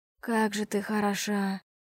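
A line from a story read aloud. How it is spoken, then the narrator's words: Breathy exhale. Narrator (Russian): выдохнул мой насильник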